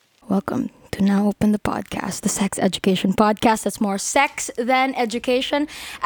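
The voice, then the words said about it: Sultry, seductive bedroom voice. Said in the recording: “bedroom voice”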